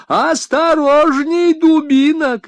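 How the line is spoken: Shouting. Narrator (Russian): кричала

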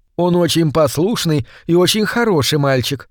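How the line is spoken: Plain. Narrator (Russian): сказала она

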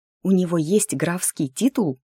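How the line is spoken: Whispered question. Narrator (Russian): шепотом спросила Милли, первой нарушив воцарившуюся тишину

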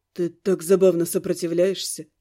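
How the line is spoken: Quiet. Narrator (Russian): тихо сообщили мне

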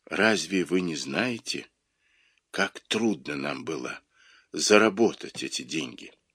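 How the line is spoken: Near whisper. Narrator (Russian): сказал почти шепотом

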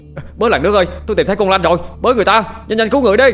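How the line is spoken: Hoarse urgent shouting. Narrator (Vietnamese): ai cũng mệt mỏi rồi, gào trác cả họng, có tiếng anh Bảy la lên

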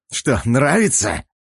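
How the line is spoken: Excited, shaking growl. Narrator (Russian): зарычал Бертье, чувствуя, как его начинает колотить от странного коктейля из адреналина и азарта

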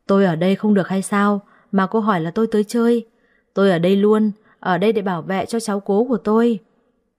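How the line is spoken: Resentful old woman. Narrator (Vietnamese): Bà trả lời tôi bằng giọng hậm hực

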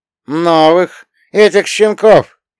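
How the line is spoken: Caustic laugh. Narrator (Russian): Карло едко рассмеялся

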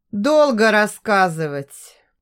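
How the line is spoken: Sigh. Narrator (Russian): вздохнул он

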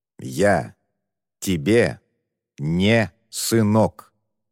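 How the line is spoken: Angry, clipped, through teeth. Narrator (Russian): Раздельно сквозь зубы и очень зло проговорил Муан

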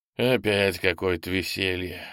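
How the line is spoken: Displeased sigh. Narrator (Russian): вздохнул попаданец, недовольный тем, что к входу в ржавый якорь придется делать крюк

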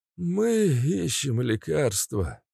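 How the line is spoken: Tired. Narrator (Russian): устало ответил Семен Павлович

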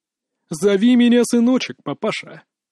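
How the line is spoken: Creaky strange laughter. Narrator (Russian): Макс заскрипел своим странным хохотом

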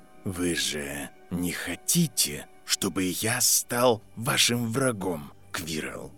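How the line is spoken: Very quiet. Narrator (Russian): Очень тихо произнес Северус Снейп

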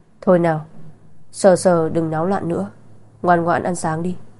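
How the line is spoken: Weary sighing. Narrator (Vietnamese): Vân Cảnh có chút đau đầu, thở dài nói

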